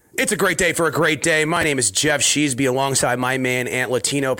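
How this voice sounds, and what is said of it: Hoarse, partly lost voice. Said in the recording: “I lost my voice down in Fort Lauderdale. It is slowly coming back ... my throat”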